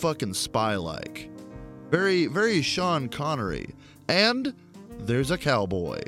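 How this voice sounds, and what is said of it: Usual voice. Nothing is said of it.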